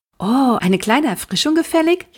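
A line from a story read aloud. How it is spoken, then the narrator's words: Calling out. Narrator (German): rief Maxe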